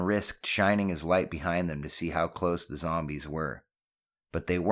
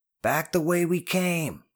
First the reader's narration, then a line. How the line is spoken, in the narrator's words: his voice full of urgency